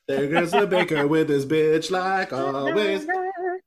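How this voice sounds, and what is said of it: Imitates a cartoon princess singing. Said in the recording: “my Belle impersonation”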